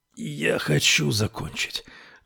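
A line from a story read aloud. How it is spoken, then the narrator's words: Breathed out. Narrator (Russian): выдохнул он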